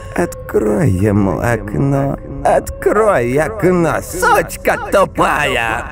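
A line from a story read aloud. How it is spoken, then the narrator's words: Mother shrieking. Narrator (Russian): Мать начала визжать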